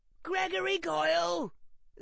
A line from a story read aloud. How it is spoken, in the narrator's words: screamed Harry